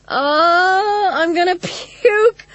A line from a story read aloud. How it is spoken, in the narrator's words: Cynthia screamed, but she was laughing, too